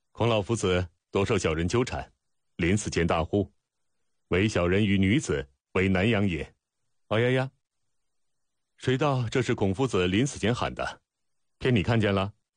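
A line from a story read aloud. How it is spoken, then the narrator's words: Laughing. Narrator (Chinese): 孟尝君笑道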